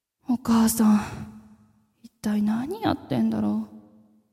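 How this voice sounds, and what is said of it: Quiet, hushed voice. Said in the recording (Japanese): “小声で”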